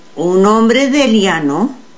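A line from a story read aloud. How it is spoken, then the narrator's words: Plain. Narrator (Spanish): dijo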